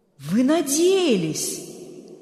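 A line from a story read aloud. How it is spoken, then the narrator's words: Stunned exclamation. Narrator (Russian): ошеломленно воскликнул Берг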